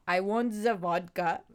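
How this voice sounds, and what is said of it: Put-on Russian accent. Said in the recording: “Russian. Give me some Russian”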